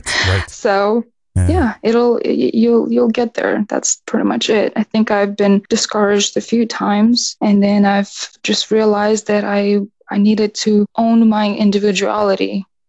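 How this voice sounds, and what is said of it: Non-American accent. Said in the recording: “I was trying to completely get rid of my accent and just, I want to play American.”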